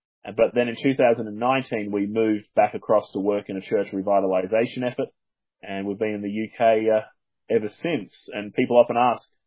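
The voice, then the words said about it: Softened Australian accent. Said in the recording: “you've done very well not to pick up the accent so far ... they have pointed out that my accent has softened a bit, and that I don't say things in the proper Australian manner anymore”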